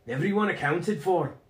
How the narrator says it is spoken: Logan called out

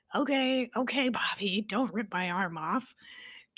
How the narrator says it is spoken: Tora chuckled

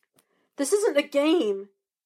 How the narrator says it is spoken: Andy cried

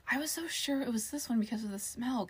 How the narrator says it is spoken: Casey whispered

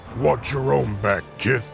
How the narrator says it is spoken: he growled

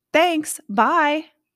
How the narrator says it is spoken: shouting amnesiatically

